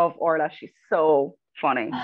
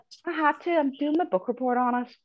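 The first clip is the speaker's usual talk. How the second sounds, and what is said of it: Put-on Northern Irish accent. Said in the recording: “my terrible accent ... Doing the Jar Girls accent.”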